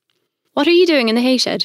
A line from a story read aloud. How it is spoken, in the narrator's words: He shouted